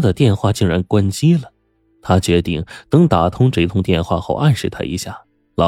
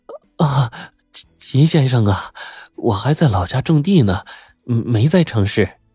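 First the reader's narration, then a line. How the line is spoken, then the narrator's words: Slightly trembling voice. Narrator (Chinese): 梁大姐声音有些颤抖说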